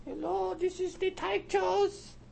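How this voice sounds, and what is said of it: Silly funny voice. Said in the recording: “Do a funny voice.”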